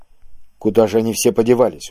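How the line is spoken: Surprised whisper. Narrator (Russian): удивленно прошептал Киск

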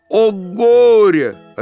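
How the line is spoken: Fish yelling. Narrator (Russian): рыбка заорала

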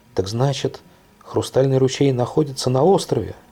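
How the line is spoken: Exclaimed. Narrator (Russian): воскликнула Лиля

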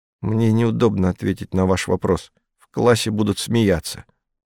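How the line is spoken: Mumble. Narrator (Russian): пробормотал

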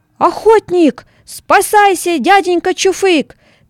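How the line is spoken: Small hare shouting. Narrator (Russian): крикнул русачок

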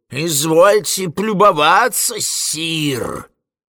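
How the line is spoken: Indignant wheeze. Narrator (Russian): засипел он с негодованием

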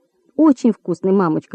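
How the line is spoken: Quick. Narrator (Russian): быстро сказала Нина

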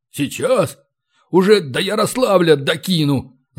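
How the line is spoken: Angry hoarse gnome. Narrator (Russian): злобно прохрипел гном

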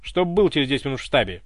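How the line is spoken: Cold commanding. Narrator (Russian): Приказным тоном, холодно, кинула секретарша

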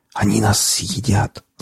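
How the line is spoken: Whisper. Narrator (Russian): зашептал пленник

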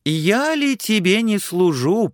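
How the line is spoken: Thin high voice. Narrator (Russian): прибавил он тоненьким голоском

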